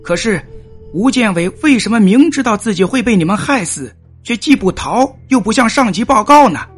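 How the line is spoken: Loud question. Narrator (Chinese): 司马子建大声的问道

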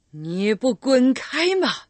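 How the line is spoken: Distant scream from darkness. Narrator (Chinese): 从广场最暗的角落里发出了一声尖叫

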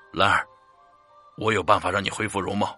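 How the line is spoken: Resolute, through gritted teeth. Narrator (Chinese): 咬咬牙跟兰儿说

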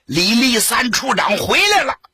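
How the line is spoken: Shout. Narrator (Chinese): 不知是谁喊了一声

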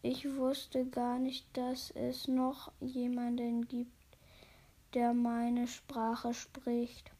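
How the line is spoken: Hesitant. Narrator (German): sagte er zögernd

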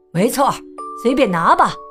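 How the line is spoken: Calling through leaves. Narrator (Chinese): 施尼佩尔先生 隔着密密匝匝的树叶喊道

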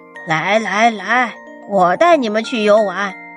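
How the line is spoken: Cheerful, smiling. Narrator (Chinese): 白鹅笑着说

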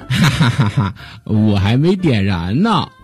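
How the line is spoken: Laughing. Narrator (Chinese): 嘟噜猪笑着说

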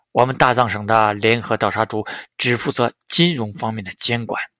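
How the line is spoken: Calm, indifferent. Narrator (Chinese): 加藤敬司淡淡说道

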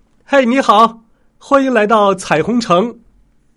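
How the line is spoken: Soldier calling out. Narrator (Chinese): 一名绿衣服的士兵向琳娜喊道

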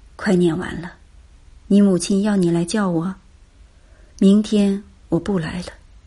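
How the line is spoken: Murmuring. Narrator (Chinese): 嘴里喃喃

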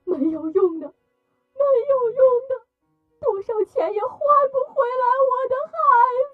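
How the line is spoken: Crying out, grieving. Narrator (Chinese): 二嫂在屋里哭喊

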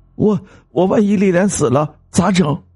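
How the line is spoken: Tearful, whining. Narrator (Chinese): 秋生哭丧着脸说

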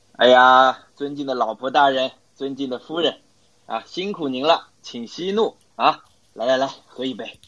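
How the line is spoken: Smiling, coaxing. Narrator (Chinese): 陆总笑笑…对陆太讲

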